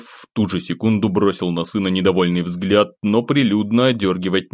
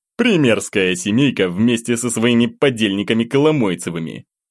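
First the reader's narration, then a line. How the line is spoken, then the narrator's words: Scornful snort. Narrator (Russian): фыркнул Евгений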